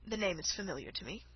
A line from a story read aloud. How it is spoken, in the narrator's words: said he